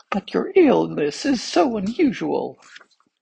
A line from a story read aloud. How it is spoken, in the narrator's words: said one of the physicians in a trembling voice